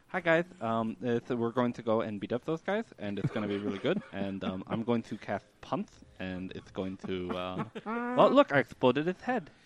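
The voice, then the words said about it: Goofy put-on character voice. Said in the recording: “I really want that to be my next character voice.”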